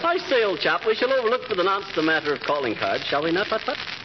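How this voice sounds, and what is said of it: Put-on posh English accent. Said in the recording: “I don't see what the English accent has to do with it, but it's probably just his idea of elegance.”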